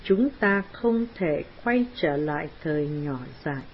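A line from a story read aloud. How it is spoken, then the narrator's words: Gentle, soft. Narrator (Vietnamese): Astor nhẹ nhàng nói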